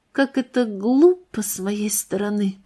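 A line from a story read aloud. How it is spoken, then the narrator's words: Lifeless voice. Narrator (Russian): произнесла она безжизненным голосом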